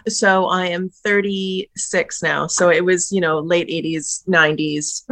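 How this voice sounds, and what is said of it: Canadian accent. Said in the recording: “In Canada, as you can tell from the accent.”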